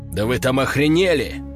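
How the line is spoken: Sharp abrupt start. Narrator (Russian): резко начал он

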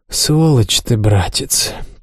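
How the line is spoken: Sad. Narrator (Russian): печально сказала Аманда

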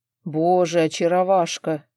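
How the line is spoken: Surprised hoarse rasp. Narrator (Russian): прохрипел Арман, явно не ожидавший от меня такого

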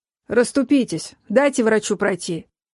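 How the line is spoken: Barked order. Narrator (Russian): рявкнул один из надзирателей

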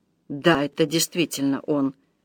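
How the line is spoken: Muttering. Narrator (Russian): пробормотал юноша

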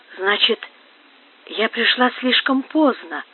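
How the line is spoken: Whisper. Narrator (Russian): прошептала Инесс

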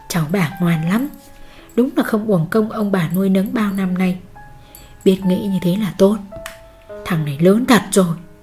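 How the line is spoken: Grandmother's soft laughing speech. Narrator (Vietnamese): Bà ngoại khẽ cười rồi nói

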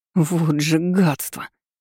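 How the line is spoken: Hissed. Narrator (Russian): прошипела я

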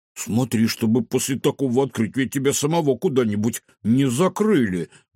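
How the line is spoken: Muttered. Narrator (Russian): буркнул Кефир

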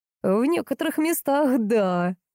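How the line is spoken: Laughing loudly. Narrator (Russian): расхохотался Глеб, прямо намекая на ее выдающуюся грудь

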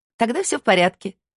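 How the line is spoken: Laughing. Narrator (Russian): рассмеялась Кони

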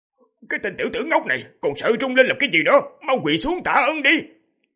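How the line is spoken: Overjoyed shout. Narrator (Vietnamese): Thương Tùng đạo nhân bên cạnh đã rất vui mừng sung sướng quát lên

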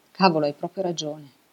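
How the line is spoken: Said with a sigh. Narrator (Italian): disse Elena con un sospiro

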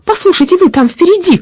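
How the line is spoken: Shout. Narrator (Russian): крикнула она

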